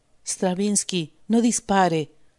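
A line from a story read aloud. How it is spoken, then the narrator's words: Quiet voice. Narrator (Spanish): dijo en voz baja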